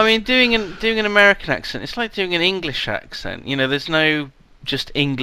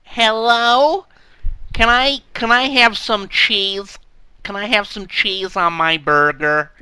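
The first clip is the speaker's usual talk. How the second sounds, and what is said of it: Put-on American accent. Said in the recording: “Is that an American accent? ... You say that so nicely. That's so attractive. That voice.”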